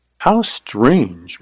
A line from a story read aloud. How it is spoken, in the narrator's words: murmured Carly